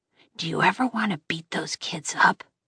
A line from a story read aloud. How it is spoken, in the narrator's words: Jack whispered